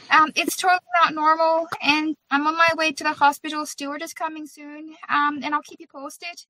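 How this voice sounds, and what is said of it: Irish accent. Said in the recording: “all of a sudden I was talking in an Irish accent ... And now I can't shake it ... can your friends tell me that my accent is from a cool part of Ireland or not?”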